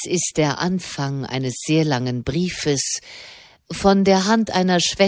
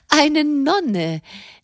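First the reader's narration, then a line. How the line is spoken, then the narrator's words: Astonished exclamation. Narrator (German): rief Madame erstaunt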